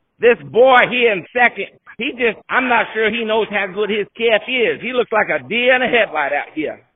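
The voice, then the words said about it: Poor imitation of another person's voice. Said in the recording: “My Dwayne Hilbert and Jim Williams impressions suck ... that terrible Jim Williams impression”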